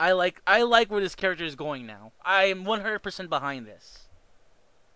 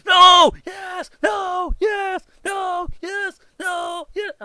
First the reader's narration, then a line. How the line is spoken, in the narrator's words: he's screaming